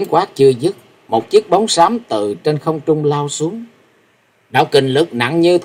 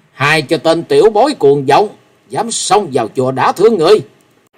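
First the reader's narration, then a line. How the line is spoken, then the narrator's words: Angry shout. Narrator (Vietnamese): Một tiếng quát giận dữ lại vang lên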